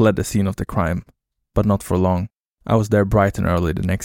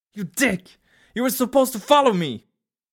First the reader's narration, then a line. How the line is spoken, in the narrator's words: shouting